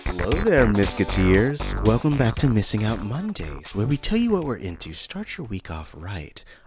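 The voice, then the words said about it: Mellow, calm radio-host voice. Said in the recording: “I'm using my NPR voice today... wow, this is super mellow... that intonation is perfect”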